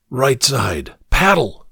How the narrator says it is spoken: the smuggler ordered, his harsh whisper barely audible above the water's slap and popple

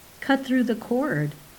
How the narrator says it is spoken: said Balthazar

